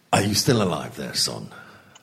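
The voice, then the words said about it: Mock northern English accent. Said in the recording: “put on a mock northern accent”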